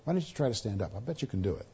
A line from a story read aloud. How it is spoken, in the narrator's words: whispered in his ear